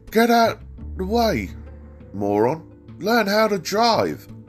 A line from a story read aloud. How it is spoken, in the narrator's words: He pulled alongside me and yelled